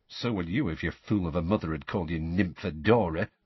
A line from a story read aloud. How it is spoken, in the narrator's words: muttered Tonks